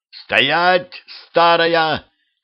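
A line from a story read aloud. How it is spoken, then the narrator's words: Shouting after someone. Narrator (Russian): крикнул ей вслед Петрович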